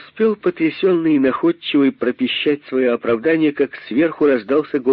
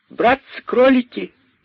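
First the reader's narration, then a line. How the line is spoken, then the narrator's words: Shouting. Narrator (Russian): кричала мартышка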